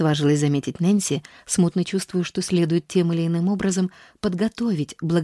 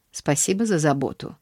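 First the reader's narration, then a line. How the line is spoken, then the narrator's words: Dry. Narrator (Russian): ответила мисс Полли сухо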